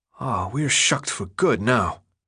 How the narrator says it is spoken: Minho whispered

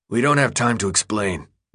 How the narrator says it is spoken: the man said, his voice as strained as his face

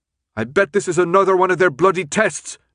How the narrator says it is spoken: Newt yelled

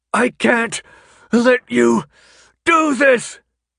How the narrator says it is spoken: he was screaming, the effort hurting his throat

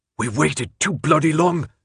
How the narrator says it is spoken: Newt snapped in a low, harsh whisper

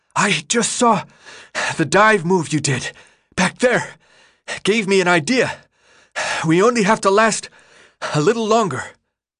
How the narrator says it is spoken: Between heaving breaths, he gasped

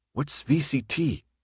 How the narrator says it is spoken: Thomas whispered to Minho

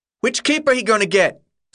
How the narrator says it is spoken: someone shouted from the back of the crowd

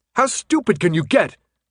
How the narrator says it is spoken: Thomas yelled

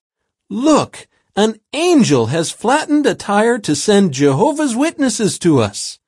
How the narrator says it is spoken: he cried out

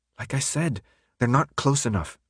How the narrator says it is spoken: Brenda answered

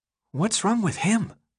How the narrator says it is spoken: the boy whispered

